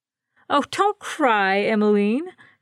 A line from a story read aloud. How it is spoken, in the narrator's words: Florence said, laughing